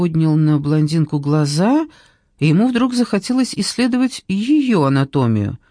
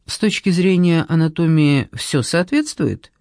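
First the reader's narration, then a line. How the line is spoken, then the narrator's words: Dry inquiry. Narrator (Russian): сухо осведомилась она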